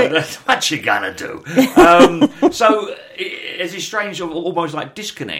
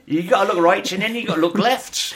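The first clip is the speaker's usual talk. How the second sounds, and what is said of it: West Country accent impression. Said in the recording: “he had a bit of a West Country accent, Dave Prowse”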